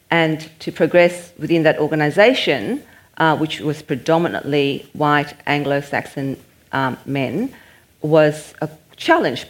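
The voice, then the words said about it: Non-native English accent. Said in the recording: “English was my second language. I still do have an accent.”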